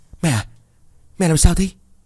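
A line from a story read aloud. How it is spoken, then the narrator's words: Trembling, stammering. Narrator (Vietnamese): Lành run rẩy chân tay ... rồi miệng ấp úng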